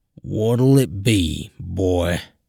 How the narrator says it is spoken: Val asking in his thick southern drawl

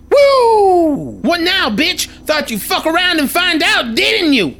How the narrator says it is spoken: I'm so overcome with relief that I holler

